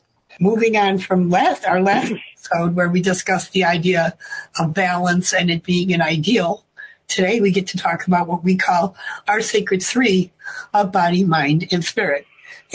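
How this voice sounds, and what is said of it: Voice altered by illness. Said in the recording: “I am recovering from pneumonia, so my voice has a tendency to not sound like it usually does, even in my own ears.”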